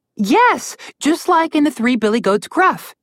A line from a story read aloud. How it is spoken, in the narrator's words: Alex said happily